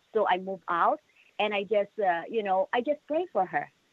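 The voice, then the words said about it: Filipino-accented English. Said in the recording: “you have a beautiful accent. I love it. It's beautiful.”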